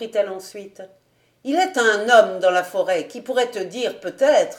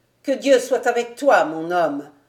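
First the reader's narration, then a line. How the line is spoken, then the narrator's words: Old woman murmuring. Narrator (French): murmura la vieille femme de charge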